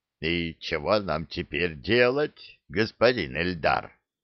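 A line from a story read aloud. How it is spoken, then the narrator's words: Hoarse question. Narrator (Russian): хрипло спросил Клык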